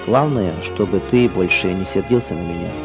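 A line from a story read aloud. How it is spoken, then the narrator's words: Quiet. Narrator (Russian): он тихо сказал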